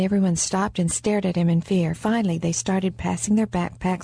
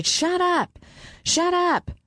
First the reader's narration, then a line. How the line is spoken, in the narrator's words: The high-pitched din of their voices annoyed the gunman, and he shouted